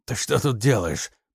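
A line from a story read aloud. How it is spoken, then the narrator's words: Hoarse rasp. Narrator (Russian): прохрипел Трофимов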